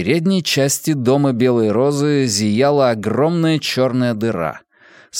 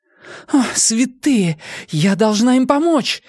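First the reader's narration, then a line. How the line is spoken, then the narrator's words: Exclamation. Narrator (Russian): воскликнула Нина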